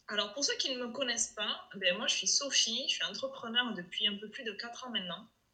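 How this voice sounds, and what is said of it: Regional French accent. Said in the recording (French): “quand on nous entend parler, on vient pas du tout de la même région ... Apparemment, ça s'entend un peu ... ça fait partie de mon branding, d'ailleurs, mon accent.”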